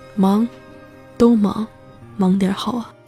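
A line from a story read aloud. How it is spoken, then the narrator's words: Murmuring to herself. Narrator (Chinese): 喃喃自语说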